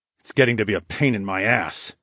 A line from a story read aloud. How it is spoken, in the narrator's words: I growled